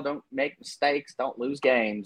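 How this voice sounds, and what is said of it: Bad put-on regional coach accent. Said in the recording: “I don't know why I used that accent there ... That was almost as bad as Brian Kelly's accent. ... It was pretty bad. ... regionally ... It just sound like something some high school coach would say.”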